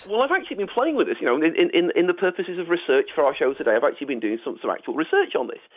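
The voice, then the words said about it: Northern English Manchester accent. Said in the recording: “it likes my Coronation Street vowels ... I'm from up north in Manchester”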